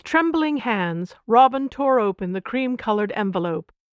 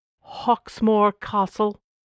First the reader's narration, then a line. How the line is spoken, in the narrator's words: asked in a low voice